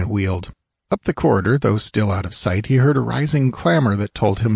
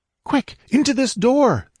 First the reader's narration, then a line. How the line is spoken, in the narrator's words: the girl cried desperately